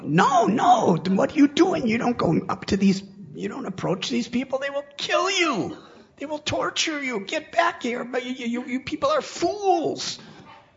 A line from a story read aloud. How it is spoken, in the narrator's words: They were screaming out